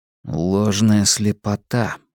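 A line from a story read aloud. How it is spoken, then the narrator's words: Muttering. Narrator (Russian): пробормотал я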